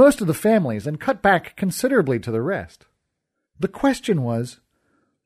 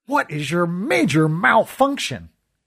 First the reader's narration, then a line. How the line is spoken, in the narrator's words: sputtered